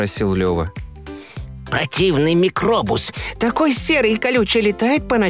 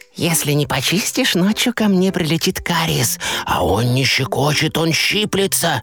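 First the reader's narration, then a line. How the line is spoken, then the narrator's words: Whisper. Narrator (Russian): Щекотун прошептал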